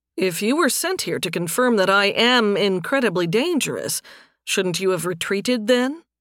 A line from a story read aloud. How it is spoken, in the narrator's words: Nathan said